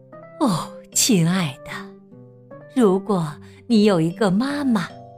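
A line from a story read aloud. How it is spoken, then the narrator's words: Sighing. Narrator (Chinese): 听了秋秋的故事，他叹了一口气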